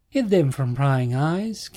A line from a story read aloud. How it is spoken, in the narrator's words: King said, chuckling